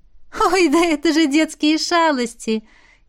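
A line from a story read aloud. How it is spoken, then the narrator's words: Ringing laughter. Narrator (Russian): Ти звонко рассмеялась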